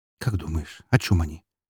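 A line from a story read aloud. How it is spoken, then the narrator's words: Completely calm question. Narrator (Russian): Абсолютно спокойно поинтересовалась Елена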